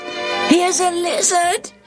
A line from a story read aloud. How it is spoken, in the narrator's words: Daniel shouted